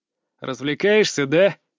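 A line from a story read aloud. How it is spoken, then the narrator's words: Barked. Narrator (Russian): рявкнул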